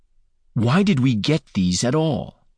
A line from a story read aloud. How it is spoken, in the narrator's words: he asked through gritted teeth